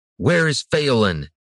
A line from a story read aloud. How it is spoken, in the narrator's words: Brannis shouted, finding renewed urgency